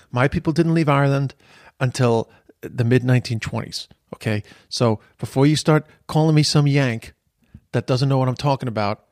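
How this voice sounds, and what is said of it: American accent. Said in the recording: “You hear my American accent.”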